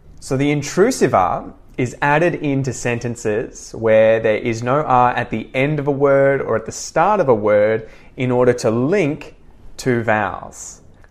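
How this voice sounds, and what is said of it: Australian accent. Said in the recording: “the Australian accent ... in the Australian accent, sometimes we insert R's”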